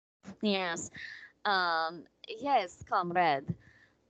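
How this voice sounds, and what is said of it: Put-on Russian accent. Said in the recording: “I love a Russian accent”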